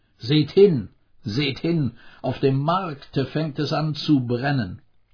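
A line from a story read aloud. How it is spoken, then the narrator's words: Calling out. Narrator (German): Honorio rief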